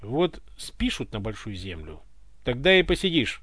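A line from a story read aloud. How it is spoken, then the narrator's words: Angry catlike snort. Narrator (Russian): рассерженной кошкой фыркнула Люська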